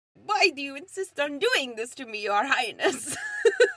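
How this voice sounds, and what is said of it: Vague put-on European-style accent. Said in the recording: “accent that Jason Alexander has picked ... your best impression ... Like, sort of an accent, but, like, not quite.”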